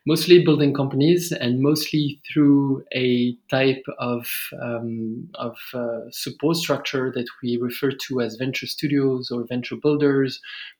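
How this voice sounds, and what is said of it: French accent. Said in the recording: “as you may hear from my accent, I'm originally from France”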